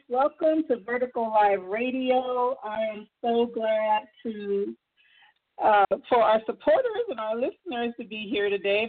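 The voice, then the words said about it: Voice fading, losing voice. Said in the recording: “I'm kind of losing my voice here in Arizona with the weather change”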